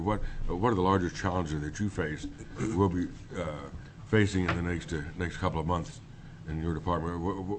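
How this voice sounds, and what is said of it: Strained, unwell-sounding voice. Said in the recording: “excuse my voice. I'm still a little trying to recover here.”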